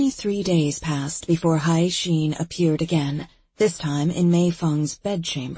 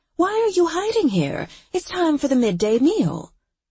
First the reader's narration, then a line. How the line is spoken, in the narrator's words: her mother exclaimed